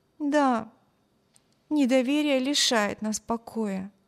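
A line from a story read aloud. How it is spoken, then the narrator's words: Sigh. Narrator (Russian): вздохнула Эми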